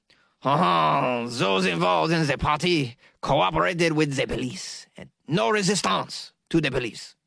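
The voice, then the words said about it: Put-on French accent. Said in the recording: “That wasn't a French accent, though. I screwed that up totally. Let me try it again.”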